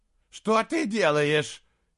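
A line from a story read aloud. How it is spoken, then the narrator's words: Shout. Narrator (Russian): крикнул монах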